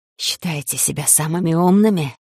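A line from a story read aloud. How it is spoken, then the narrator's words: Spitting hiss in ear. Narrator (Russian): зашипели мне на ухо, щедро брызгая слюной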